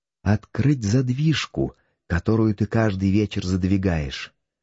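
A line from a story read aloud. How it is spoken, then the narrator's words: Calm, certain retort. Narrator (Russian): возразила Шикита самым спокойным тоном, как будто не могло быть ни малейшего колебания в законности ее поступка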